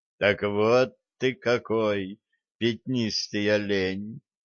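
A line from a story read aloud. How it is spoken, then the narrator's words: Surprised drawl. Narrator (Russian): удивленно протянул я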